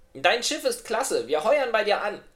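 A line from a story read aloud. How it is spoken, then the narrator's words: Called out. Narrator (German): rief Otterchen dem Captain Marley zu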